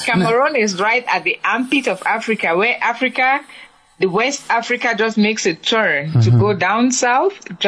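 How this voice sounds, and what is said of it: Slight accent. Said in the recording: “I do detect a slight accent”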